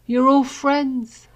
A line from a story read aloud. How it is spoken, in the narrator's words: Harry slurred